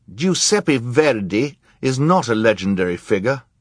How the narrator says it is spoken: Klaus said indignantly

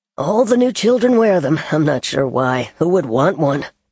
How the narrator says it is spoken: the man chuckled

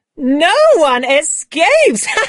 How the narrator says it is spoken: laughed excitedly as we hurried through the trees

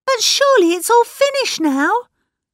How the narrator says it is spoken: cried Mrs

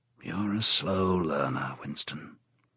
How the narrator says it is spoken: said O'Brien gently

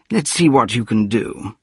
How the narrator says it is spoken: said the psychologist

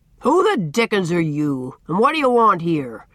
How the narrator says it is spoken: he demanded, in his great resounding voice, with a fierce scowl

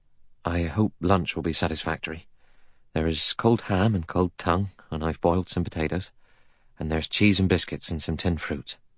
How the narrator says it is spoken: He said in a low, anxious voice

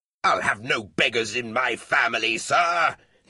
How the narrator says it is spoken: his father roared

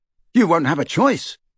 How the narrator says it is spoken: said Ron fiercely

